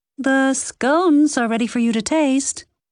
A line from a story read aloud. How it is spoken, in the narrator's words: Lexi called out, anxiously